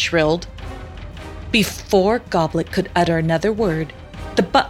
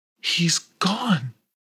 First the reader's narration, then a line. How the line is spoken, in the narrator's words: whispered Pimperel to Miss Beams